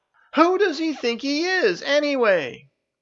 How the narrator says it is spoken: Juice roared at Janice, complaining

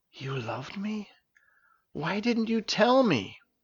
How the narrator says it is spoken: Terra finally broke the silence by whispering

